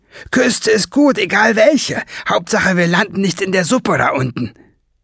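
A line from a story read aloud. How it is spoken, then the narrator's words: Called out. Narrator (German): rief sie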